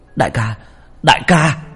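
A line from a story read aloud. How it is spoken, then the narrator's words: Yelling. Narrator (Vietnamese): tiếng gào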